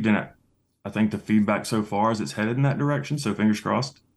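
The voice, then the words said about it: Distinct regional accent. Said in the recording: “we obviously know where you come from based on that beautiful accent.”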